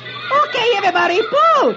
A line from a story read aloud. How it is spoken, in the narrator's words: Dagwood's daughter yells